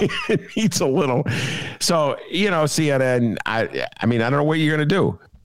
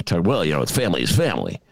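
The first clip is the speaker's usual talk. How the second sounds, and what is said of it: Imitates another person's voice. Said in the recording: “my Tucker Carlson imitation... needs a little work”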